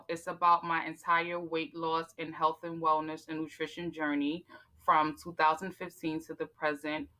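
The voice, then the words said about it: New York accent. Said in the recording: “you got a New York about. accent. ... She got that New York sound.”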